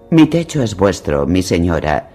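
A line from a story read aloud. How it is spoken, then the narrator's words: Harsh rasping reply. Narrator (Spanish): replicó Lord Nestor con voz áspera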